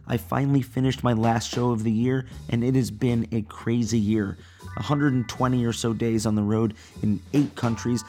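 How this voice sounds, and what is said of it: Strained, worn-out hoarse voice. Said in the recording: “As you can probably hear, my voice is a bit shot tonight”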